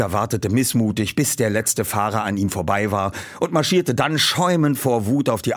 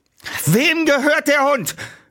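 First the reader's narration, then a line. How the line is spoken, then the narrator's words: Calling out to crowd. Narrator (German): rief er in die Zuschauer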